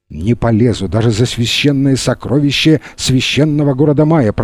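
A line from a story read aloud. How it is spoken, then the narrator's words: Muttering. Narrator (Russian): пробормотал он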